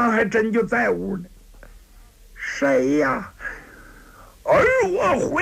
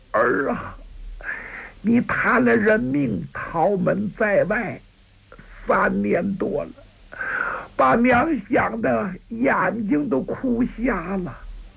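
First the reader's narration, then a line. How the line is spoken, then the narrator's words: Old woman asking after weeping. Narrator (Chinese): 老太太也哭，最后止住悲声，老太太问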